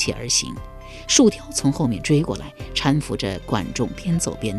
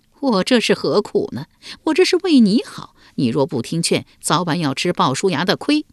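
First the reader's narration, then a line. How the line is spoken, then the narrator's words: Wry, bitter smile. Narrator (Chinese): 树雕苦笑道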